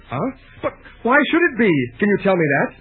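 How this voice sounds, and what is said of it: Emotional, agitated speech. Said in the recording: “getting emotional?”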